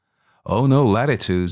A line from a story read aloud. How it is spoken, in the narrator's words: he said, laughing